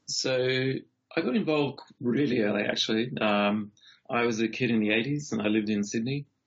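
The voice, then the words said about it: Non-local accent. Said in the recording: “if you can't already tell by the accent, I'm assuming you're not from around here”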